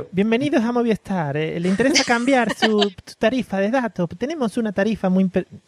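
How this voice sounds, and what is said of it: Mixed Argentine-Paraguayan accent. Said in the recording (Spanish): “ese acento cuál es. Ese acento mezcla. Es, de Uruguay... un argentino cruzado con un paraguayo.”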